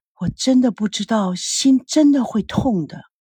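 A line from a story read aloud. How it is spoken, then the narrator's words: Sighing to oneself. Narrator (Chinese): 不自觉的叹了口气，对自己说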